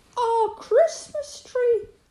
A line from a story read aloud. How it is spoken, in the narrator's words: cried Molly